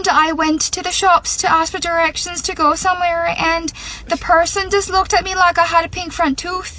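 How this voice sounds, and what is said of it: Speaks with an Irish accent. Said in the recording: “my accent was deteriorating and it was changing from an Aussie accent to an Irish one”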